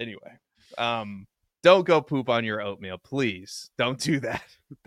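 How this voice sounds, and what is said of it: Usual voice. Nothing is said of it.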